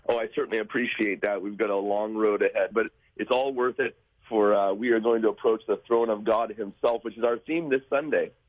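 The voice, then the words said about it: Voice a little off, sick-sounding. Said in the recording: “I apologize. My voice is a little bit off. I've got a Christmas cold.”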